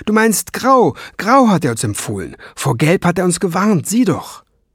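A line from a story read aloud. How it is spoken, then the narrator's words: Shout. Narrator (German): rief Ben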